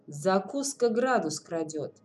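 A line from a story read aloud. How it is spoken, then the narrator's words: Gloomy answer. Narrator (Russian): мрачно отвечает Павел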